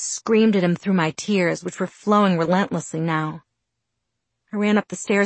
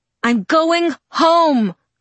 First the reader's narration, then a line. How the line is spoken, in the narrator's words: I shouted, my voice breaking in the perfect spot